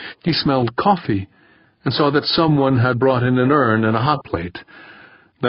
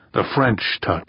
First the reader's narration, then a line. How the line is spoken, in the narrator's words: someone else muttered